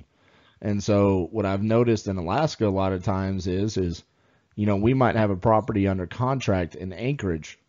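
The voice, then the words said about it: Southern American accent. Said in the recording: “my accent, my Southern accent”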